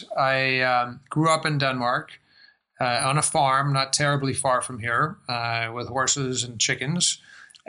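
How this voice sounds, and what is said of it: American-influenced English accent. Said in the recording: “You can probably tell from my accent that I spend a lot of time in the United States.”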